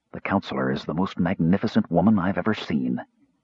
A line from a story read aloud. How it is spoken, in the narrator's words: murmured